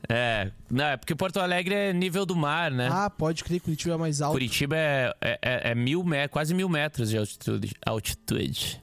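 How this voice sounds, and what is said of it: Brazilian Portuguese Curitiba regional accent. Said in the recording (Portuguese): “voltando já com o sotaque de Curitiba ... o sotaque já volta rapidinho”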